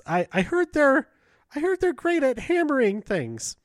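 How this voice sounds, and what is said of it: Imitates another person's voice. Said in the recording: “That's not a good impression of her”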